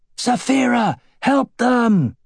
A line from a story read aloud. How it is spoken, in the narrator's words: Aragorn shouted